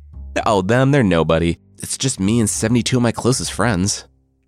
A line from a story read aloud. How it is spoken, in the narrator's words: Set replied